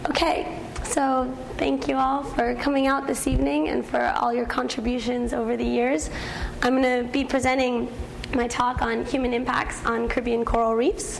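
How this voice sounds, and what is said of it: Hoarse, croaky voice. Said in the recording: “You'll excuse my frog voice. ... I've lost my voice a bit”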